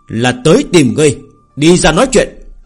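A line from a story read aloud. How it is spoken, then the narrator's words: Loud bark. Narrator (Vietnamese): Hắn quát đại nói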